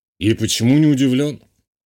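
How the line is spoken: Snort. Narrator (Russian): хмыкнул полковник

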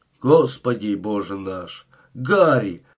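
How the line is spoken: Exclamation. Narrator (Russian): воскликнул шериф

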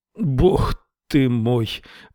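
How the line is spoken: Groan. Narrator (Russian): простонал

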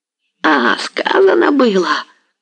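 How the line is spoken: Rasping wheeze. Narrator (Russian): захрипел Дорошенко

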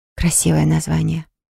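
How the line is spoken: Whispered. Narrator (Russian): прошептала

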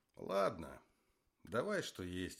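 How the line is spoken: Sighing. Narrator (Russian): вздохнул Зиганшин

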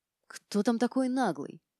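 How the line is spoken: Annoyed hiss. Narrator (Russian): прошипела

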